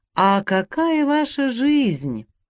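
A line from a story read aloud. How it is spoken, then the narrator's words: Regretful, tender, careful, altered voice. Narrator (Russian): сожалительно и ласково, аккуратно кладя слово к слову, не своим голосом выпивал Меринок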